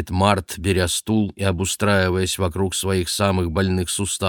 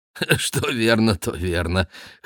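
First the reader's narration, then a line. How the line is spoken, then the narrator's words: Chuckling agreement. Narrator (Russian): хохотнув, соглашается Март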